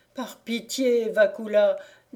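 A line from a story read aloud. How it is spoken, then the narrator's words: Devil groaning. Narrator (French): dit le diable en gémissant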